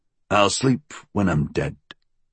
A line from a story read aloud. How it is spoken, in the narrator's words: William grunted